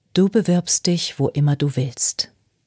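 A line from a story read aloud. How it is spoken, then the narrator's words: Plain. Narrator (German): sagte Clover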